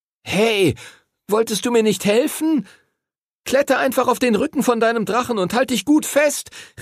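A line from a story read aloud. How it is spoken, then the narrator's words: Calling out. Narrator (German): rief Henry ihm zu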